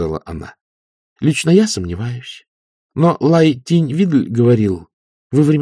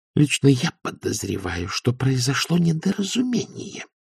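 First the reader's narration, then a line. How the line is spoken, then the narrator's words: Hissing. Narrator (Russian): прошипела она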